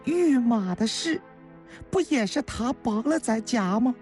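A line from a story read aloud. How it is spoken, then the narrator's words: Pained sigh. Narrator (Chinese): 孙叔同……心疼地叹了口气呀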